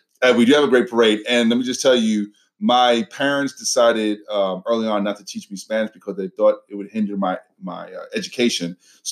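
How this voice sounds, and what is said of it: Brooklyn New York accent. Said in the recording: “I'm originally from Brooklyn, New York, if you can't tell from my accent.”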